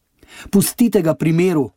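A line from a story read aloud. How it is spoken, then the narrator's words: Calling out. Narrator (Slovenian): je zaklicala Rahaba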